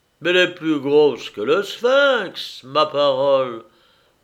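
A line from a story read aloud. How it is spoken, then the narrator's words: Grumbling. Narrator (French): grommela enfin Ellis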